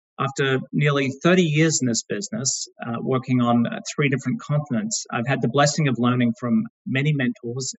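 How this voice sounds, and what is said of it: Australian accent. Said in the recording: “as you may be able to tell from my accent, I'm Australian”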